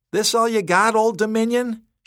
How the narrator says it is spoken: she shouted

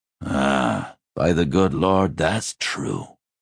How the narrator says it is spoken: he groaned

